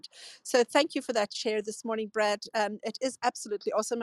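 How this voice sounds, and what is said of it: Scottish accent. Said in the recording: “with a Scottish accent... that accent is incredible”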